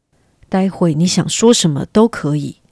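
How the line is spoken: Low whisper in ear. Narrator (Chinese): 莫尔登，低声的在尼尔斯耳边说

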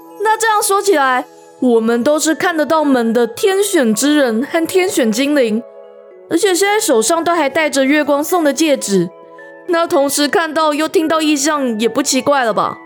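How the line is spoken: Smiling. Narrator (Chinese): 元宇终于笑了

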